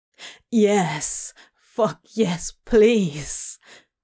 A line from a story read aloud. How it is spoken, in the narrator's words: Crowley choked out